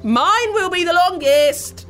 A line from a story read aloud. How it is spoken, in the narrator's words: shouted Cora